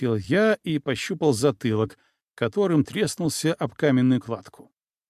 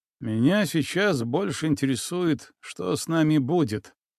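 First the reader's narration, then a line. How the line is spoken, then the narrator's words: Gloomy remark. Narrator (Russian): мрачно заметил Алексей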